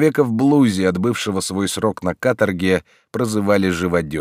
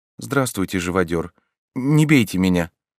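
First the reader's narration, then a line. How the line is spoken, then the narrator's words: Timid woman's voice. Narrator (Russian): Женщина робко промолвила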